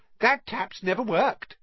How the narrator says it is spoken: said Myrtle brightly

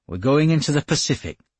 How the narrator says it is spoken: he said

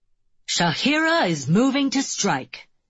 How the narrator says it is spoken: the announcer exclaims

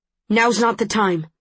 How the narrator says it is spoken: says Tobias sharply

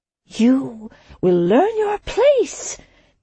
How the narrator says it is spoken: the sojourner snarled

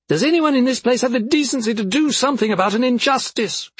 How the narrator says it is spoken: She yelled

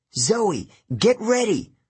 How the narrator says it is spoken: I yelled

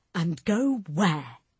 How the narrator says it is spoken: Tommy snapped

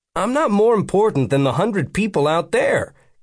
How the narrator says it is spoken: Cade said sharply

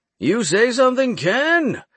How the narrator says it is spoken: Torrance yelled from the kitchen

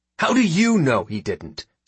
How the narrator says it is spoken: snaps Mektu

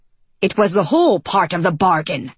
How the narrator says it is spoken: John snapped

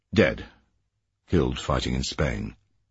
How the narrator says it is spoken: he said it flatly

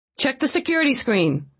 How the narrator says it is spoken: she said quickly

